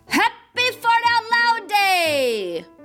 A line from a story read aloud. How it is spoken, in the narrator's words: the little girl who farted yelled as loud as her little voice could yell